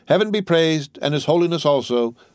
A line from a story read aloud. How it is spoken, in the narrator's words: said, in a loud voice